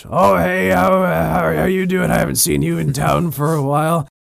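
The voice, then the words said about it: Funny character voice. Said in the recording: “the DM might make a funny voice.”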